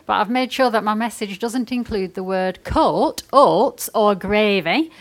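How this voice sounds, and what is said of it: Lancashire English accent. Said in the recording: “I grew up in a small town outside Burnley Lancs, hence my accent.”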